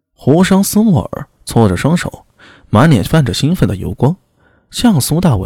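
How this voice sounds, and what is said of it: Usual voice. Nothing is said of it.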